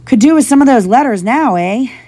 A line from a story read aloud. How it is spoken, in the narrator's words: he said cheerfully